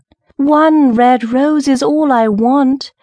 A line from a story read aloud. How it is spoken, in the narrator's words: cried the nightingale